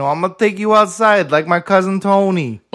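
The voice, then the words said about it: Put-on New York Italian accent. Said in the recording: “my Italian accent ... It was like a little New York Italian ... It's a little bit less Italian and more New York”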